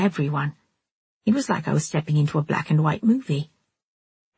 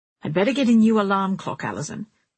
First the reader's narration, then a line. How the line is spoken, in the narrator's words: she was saying sharply